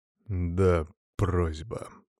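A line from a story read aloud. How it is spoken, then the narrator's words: Through gritted teeth. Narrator (Russian): процедил Артем Ярославович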